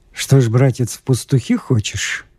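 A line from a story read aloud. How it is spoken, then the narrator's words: Plain. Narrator (Russian): спросил господин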